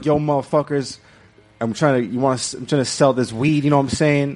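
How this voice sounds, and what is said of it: Put-on gangster hood accent. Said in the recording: “African-American accent, gangster accent ... That doesn't sound African-American. That just sounds hood.”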